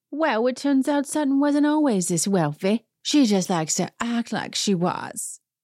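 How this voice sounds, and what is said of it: Impression of Dorit's accent. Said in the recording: “let me do her accent.”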